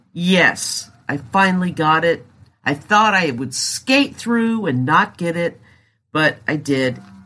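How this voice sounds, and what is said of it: Scratchy, congested voice. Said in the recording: “excuse my voice. It's scratchy, I'm congested, I'm just getting over COVID.”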